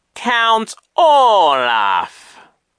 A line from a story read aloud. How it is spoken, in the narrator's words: Genghis said slowly